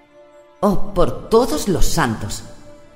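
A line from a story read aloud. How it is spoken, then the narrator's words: Flustered exclamation. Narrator (Spanish): exclamó Caris turbada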